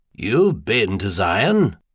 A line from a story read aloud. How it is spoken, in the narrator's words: Stainer couldn't quite hide his surprise